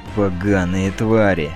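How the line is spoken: Growling. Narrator (Russian): прорычал Джарвис

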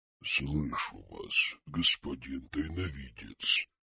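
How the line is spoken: Growled. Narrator (Russian): прорычала маска

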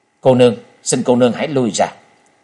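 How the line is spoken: Cold speech. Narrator (Vietnamese): Trần Lâm lạnh lùng nói

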